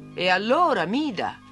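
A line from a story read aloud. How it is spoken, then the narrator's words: Loud mocking voice. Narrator (Italian): disse una voce forte in tono di scherno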